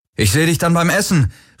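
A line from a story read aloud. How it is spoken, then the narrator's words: Calling out. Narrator (German): rief er Kirai zu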